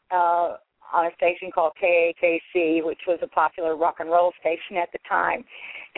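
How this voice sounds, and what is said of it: Oklahoma Southern US accent. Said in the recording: “probably can hear in my voice that I'm originally from Oklahoma, or they probably can figure out I'm at least somewhere south of the Mason-Dixon line”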